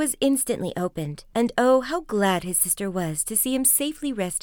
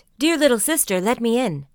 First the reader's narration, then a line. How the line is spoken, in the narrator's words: cried